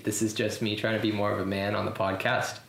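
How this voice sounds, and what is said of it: Artificially deepened voice. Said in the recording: “my voice isn't usually this deep”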